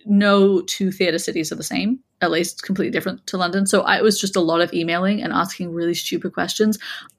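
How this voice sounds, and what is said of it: Mixed American accent, hint of English. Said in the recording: “my accent is weird. But I have a hint of an English accent”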